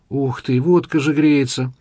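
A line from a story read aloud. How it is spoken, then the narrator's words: Pastry groaning. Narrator (Russian): простонал пирожок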